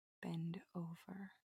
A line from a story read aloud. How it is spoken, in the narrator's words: whisper